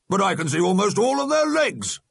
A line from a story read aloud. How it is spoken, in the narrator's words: the alderman roared